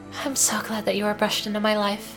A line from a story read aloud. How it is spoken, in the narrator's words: she whispered